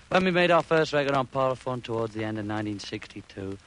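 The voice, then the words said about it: English accent. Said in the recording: “I thought it was saying gear with that English accent.”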